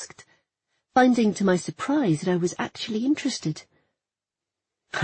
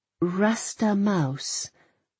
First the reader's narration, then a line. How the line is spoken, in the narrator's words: I read aloud, slowly